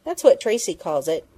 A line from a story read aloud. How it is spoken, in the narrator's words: Penny explained impatiently